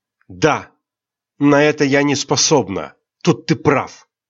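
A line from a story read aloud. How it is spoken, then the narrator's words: Sharp and angry. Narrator (Russian): Резко и зло ответила Айрин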